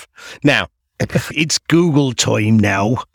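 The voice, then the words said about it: Bad West Country pirate voice. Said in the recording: “my bad pirate impersonation ... Why is the pirate from the West Country?”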